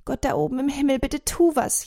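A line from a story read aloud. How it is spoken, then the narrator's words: Wailing lament. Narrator (German): jammert sie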